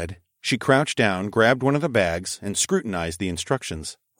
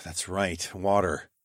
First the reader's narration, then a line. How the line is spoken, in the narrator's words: I sighed